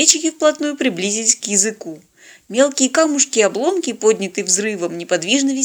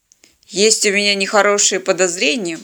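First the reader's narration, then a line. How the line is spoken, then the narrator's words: Gloomy. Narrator (Russian): мрачно сказал пилот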